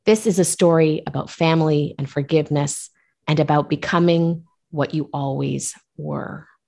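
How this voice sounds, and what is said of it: Radio voice. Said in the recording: “I love your radio voice.”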